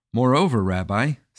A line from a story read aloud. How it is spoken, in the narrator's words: said the Parnas